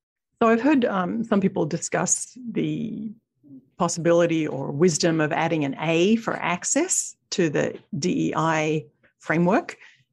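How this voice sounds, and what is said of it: Speaks with a noticeable accent. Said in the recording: “my accent is messing things up there ... I love your accent”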